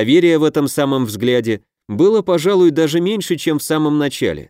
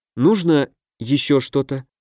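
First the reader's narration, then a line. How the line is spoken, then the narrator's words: Quiet question. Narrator (Russian): негромко поинтересовалась Вяземская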